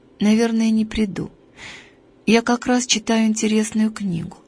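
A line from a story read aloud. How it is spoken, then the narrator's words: Sad voice. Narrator (Russian): ответила Таня грустным голосом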